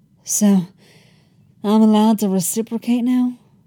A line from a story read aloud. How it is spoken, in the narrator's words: Eli said breathlessly